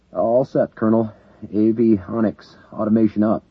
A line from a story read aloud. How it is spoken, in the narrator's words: Lawrence Simmons answered nervously, trying to quell his anxiety